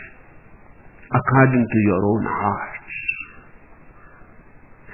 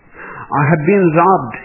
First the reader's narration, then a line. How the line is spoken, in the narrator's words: screamed